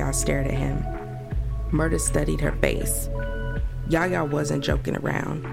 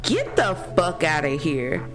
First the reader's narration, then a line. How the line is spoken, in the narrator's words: Murder cracked up laughing